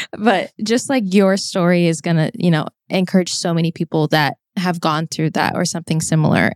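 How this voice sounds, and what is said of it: Emotional, choked-up voice. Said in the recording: “why am I getting emotional?”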